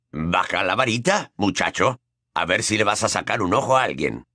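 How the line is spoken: Quiet grumpy voice. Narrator (Spanish): dijo una voz queda y gruñona

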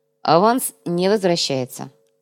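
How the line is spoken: Stern. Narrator (Russian): строго сообщил Кортес

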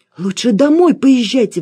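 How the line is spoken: Exclamation. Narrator (Russian): воскликнула Алена

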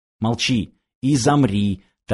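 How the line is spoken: Quiet reply. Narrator (Russian): так же тихо отозвался Данила

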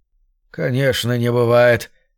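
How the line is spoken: Mechanic's sigh. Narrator (Russian): вздохнул механик

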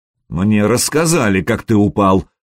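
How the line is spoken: Through gritted teeth. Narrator (Russian): процедил княжич

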